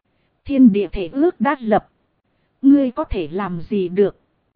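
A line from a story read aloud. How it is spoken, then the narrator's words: Cold. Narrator (Vietnamese): Tham Lang trưởng lão lạnh lùng nói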